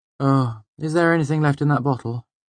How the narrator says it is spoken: She asked wearily

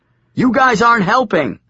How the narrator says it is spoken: shouted back

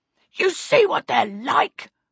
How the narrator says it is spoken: Rollo said angrily

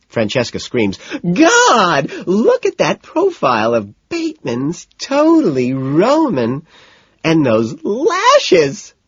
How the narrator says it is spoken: she shrieks

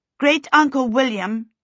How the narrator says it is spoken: she called out

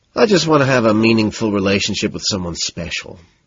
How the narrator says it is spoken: sighing

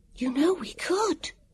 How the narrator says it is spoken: Vivian whispered

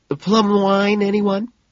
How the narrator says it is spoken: Her composure falters, but she smiles bravely and chirps

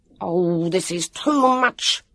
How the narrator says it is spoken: shouted

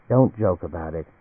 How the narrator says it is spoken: Anne said quietly

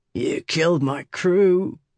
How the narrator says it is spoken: Red growled

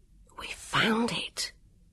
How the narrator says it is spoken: he whispered

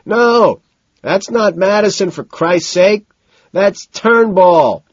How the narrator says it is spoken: shouts decisively

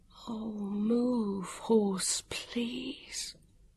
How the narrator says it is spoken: Vivian whispered

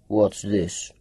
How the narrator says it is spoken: Faber John rumbled

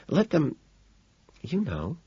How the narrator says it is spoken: Evelyn whispers behind me

